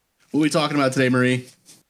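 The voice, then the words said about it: Imitates another person's voice. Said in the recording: “That was my Mitch McConnell impersonation.”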